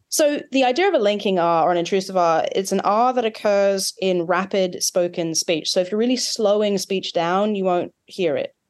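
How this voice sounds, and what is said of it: Australian accent. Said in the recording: “They're both features that occur in my accent, Australian.”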